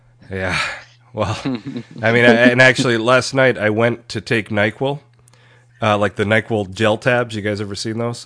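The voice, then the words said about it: Sick, rough-sounding voice. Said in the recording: “My voice is probably a little bit terrible. I'm pretty under the weather. ... You sound so sad”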